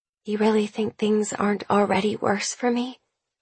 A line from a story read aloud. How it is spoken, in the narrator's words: Her whisper, fragile and soft